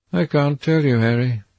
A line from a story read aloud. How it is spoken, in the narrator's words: he answered sadly